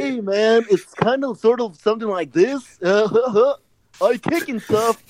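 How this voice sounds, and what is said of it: Cartoon character voice. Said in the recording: “I'm going to do the Sanji voice.”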